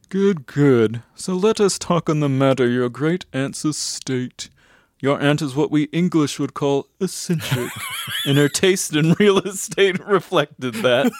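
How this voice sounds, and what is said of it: Dry British accent. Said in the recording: “in a dry British accent”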